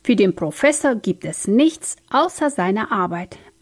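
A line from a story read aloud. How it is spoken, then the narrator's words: Plain. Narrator (German): antwortete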